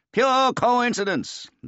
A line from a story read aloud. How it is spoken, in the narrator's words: the old man boomed out